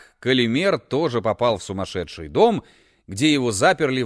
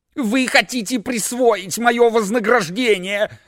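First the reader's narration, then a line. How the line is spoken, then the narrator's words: Yelling while struggling. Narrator (Russian): вопил Калимер, пытаясь вырваться из рук жандармов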